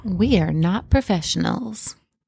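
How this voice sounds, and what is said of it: Sultry phone-sex style voice. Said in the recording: “Oh, maybe you're going to be a phone sex professional. ... What was that voice? ... It's my new voice.”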